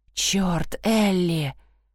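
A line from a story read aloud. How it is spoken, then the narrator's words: Aroused hiss. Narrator (Russian): зашипел я, когда ее губы обхватили мой член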